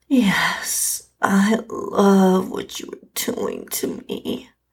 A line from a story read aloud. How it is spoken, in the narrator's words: I moaned out in response